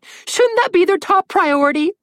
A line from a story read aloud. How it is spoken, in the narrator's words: Red whined